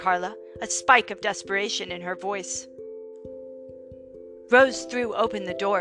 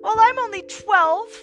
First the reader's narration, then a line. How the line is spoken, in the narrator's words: sobbed Jane